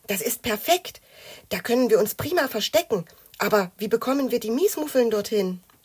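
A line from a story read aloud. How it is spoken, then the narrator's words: Whispering back. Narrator (German): wisperte Mathilda zurück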